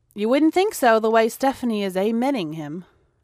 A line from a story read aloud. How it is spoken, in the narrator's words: responded Amanda dryly